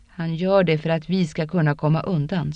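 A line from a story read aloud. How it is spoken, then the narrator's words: Plain. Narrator (Swedish): sa Rand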